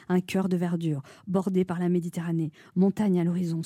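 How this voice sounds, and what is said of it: Breathy, sensual voice. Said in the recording (French): “Vous avez un problème respiratoire? ... je prends une voix sensuelle ... Respirez.”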